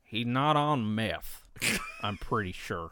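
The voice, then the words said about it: Put-on southern accent. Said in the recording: “In a southern accent”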